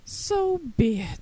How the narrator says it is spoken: decided with a sigh

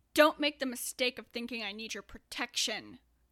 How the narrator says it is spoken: Andrew snarled

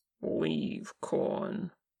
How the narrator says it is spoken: Kim grumbled

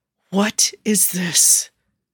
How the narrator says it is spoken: Fatima hissed

